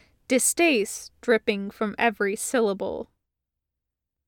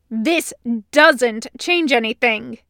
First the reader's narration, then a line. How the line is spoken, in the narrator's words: he snarled